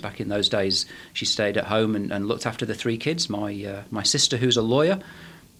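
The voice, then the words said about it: Manchester English accent. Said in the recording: “as you can probably tell from my accent, I was born in Manchester in England”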